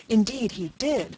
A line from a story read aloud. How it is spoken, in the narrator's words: cried Miss Peyton